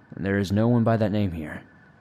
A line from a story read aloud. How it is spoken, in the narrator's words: she said in a calm tone